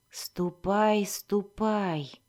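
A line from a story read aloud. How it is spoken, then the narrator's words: Calm. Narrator (Russian): спокойно произнес Альтон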